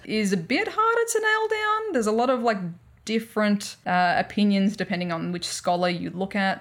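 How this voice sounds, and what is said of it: Australian accent. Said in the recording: “excuse my horrific Australian accent”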